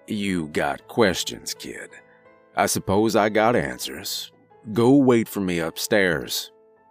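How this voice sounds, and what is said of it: Thick Southern drawl. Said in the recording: “His thick southern drawl hung over his words like a fog.”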